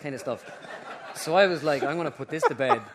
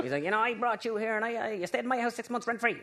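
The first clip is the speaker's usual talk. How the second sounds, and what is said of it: Imitates another person's voice. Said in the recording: “That's your best impression.”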